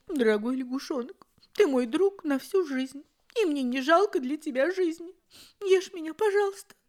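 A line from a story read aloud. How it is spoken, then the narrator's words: Smiling through tears. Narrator (Russian): нарыдавшись, кузнечик сказал, улыбаясь сквозь слезы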